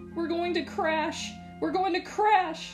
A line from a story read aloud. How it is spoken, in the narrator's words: Todd wailed